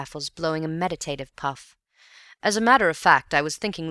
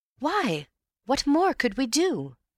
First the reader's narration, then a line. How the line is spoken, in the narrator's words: exclaimed in soft derision